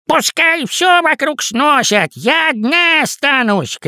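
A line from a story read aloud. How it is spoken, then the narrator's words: Shouted from a distance. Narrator (Russian): крикнула тетя Пани со своего этажа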